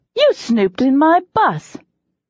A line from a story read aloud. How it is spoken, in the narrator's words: I said indignantly